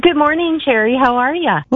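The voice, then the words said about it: Chipper, upbeat voice. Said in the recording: “you sound like a chipper Monday person”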